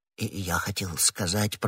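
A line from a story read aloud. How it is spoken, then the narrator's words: Embarrassed mumble. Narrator (Russian): пробормотал Бонасье, заметив, что ответил неудачно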